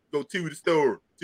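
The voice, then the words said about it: Put-on Baltimore accent. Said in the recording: “like that Baltimore accent.”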